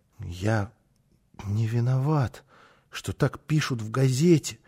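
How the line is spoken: Muttering. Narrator (Russian): пробормотал он снова

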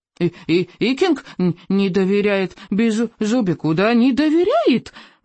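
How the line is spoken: Indignant squeak. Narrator (Russian): возмущенно пропищал он

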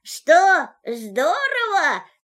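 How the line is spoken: Shouted from high above. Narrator (Russian): крикнул ему из поднебесья Винни-Пух

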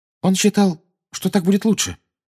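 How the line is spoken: Dejected voice. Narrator (Russian): произнесла Гермиона упавшим голосом

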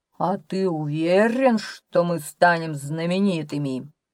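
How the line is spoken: Growled. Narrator (Russian): прорычал дичайший из дичайших

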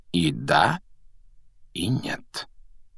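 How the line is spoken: Quiet remark. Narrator (Russian): негромко заметил Дамблдор

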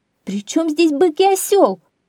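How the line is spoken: Woman shouting. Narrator (Russian): закричала женщина

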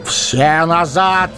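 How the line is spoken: Shout. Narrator (Russian): крикнул Гэндальф

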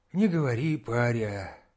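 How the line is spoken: Old man, dejected. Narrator (Russian): уныло отозвался дед

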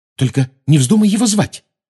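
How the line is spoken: Anxious. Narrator (Russian): взволнованно сказала Гермиона

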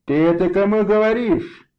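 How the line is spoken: Shouted. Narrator (Russian): крикнул Вильям

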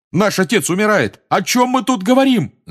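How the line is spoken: Yelling angrily. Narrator (Russian): заорал Джордж

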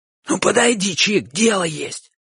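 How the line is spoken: Shouting again. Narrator (Russian): снова крикнул Бочо

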